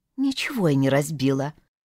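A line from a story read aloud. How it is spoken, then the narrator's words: Sullen mutter turned away. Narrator (Russian): пробурчала Алла, отворачиваясь к окну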